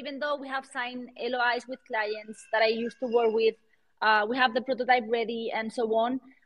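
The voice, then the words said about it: Strong Latin American accent. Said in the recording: “I'm not from the United States... I have a hard accent. Being Latin”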